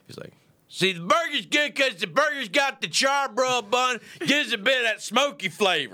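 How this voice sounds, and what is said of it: Hyped-up imitation of a TV chef. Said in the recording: “I've been doing Guy Fieri recently. ... Seems like he's on drugs a little bit, you know? He's like a little coked up”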